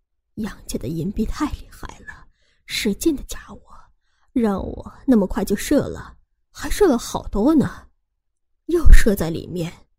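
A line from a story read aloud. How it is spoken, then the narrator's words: Low voice. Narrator (Chinese): 低声说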